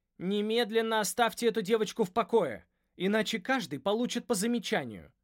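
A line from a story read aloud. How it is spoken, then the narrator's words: Stern shout. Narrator (Russian): крикнула она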